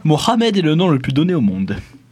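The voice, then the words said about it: Speaks with a put-on accent. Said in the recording (French): “Joli accent.”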